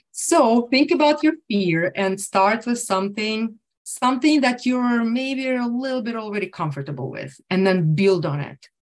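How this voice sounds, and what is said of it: Speaks with an accent. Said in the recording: “This is where my accent is just all in front of you.”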